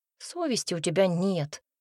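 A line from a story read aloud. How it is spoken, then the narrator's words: Displeased grumble. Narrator (Russian): пробурчала я недовольно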